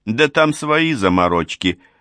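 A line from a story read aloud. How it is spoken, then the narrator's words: Chuckle. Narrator (Russian): хохотнул Апсу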